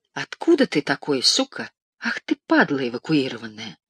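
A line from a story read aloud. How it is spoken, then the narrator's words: Low confidential voice. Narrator (Russian): сказал вполголоса доверительно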